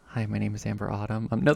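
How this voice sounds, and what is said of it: Soft ASMR-style radio voice. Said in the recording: “can do an NPR voice that good ... that's just ASMR. I'm just doing ASMR there.”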